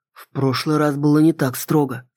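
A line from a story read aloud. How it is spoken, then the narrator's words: Quiet. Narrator (Russian): сказал он тихо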